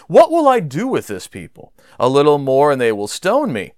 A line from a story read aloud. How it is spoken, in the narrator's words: Moses cried out to Yahweh